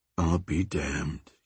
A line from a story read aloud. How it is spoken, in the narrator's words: he muttered